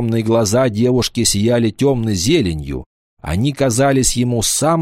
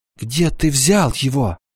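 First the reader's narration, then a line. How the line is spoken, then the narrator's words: Trembling voice. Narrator (Russian): Девушка дрожащим голосом спросила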